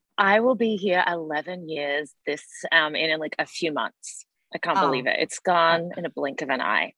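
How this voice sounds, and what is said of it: Australian accent, partly Americanized. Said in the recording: “I didn't know that you're from Down Under ... My family thinks I sound American now, so I am excited that you're picking up my Australian accent still”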